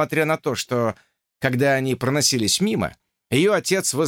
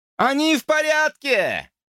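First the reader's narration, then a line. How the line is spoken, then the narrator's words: Shouted. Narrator (Russian): крикнул он Изабель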